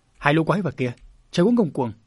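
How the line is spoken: Indignant loud shout. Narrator (Vietnamese): Hiểu Hà lúc này đứng bên cạnh không chịu nổi những hành vi đó của bọn chúng mà quát lớn

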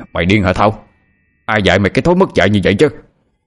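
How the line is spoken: Loud alarmed voice. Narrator (Vietnamese): Thấy vợ bị như vậy, ông Ba Tùng lớn tiếng nói

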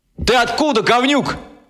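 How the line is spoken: Shout. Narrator (Russian): крикнул

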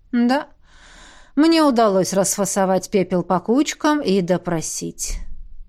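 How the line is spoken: Tired yawn. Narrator (Russian): устало зевнул некромант

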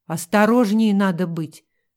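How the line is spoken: Angry mutter. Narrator (Russian): сердито буркнул Рудольф

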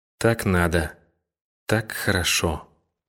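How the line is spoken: Quiet, strange, musing aloud. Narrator (Russian): произнесла она тихо и странно, с видом вслух думающей

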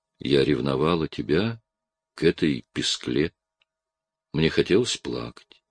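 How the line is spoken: Tenderly said. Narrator (Russian): нежно говорю

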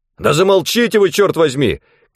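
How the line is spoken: Shouting. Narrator (Russian): крикнул он

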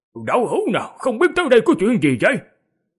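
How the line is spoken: Raised voice. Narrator (Vietnamese): lập tức cao giọng

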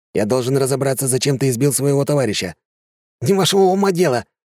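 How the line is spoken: Snapping retort. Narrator (Russian): огрызнулся

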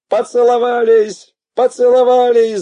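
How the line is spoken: Yelling across the hall. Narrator (Russian): заорал я на весь зал

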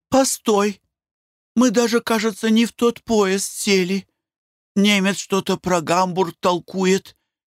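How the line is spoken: Frightened. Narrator (Russian): испуганно проговорила Глафира Семеновна

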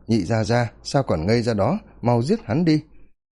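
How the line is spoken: Angry shout. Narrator (Vietnamese): Công tử Phong Gia thì tức giận la to

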